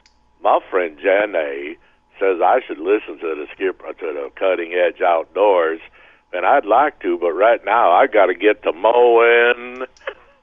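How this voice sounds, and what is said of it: Forrest Gump impression. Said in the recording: “you do a Forrest Gump impression ... Actually, not too bad.”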